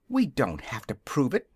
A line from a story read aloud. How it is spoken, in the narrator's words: answered Dorothy indignantly